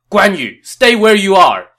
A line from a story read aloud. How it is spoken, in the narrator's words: Xiahou Dun shouted as he approached